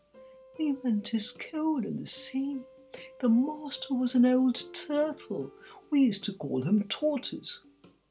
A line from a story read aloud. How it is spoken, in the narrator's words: the Mock Turtle went on at last, more calmly, though still sobbing a little now and then